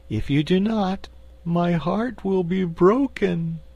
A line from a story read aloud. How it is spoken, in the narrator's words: declared the cookie cook in a sorrowful voice